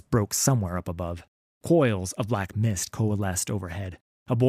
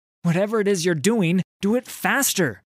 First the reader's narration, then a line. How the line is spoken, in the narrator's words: shouted Miss Fortune